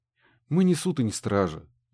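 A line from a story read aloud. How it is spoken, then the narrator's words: Sighing. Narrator (Russian): вздохнул Гидеон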